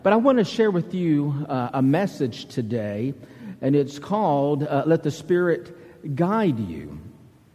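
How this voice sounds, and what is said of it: Southern US accent. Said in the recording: “my southern accent ... from Alabama”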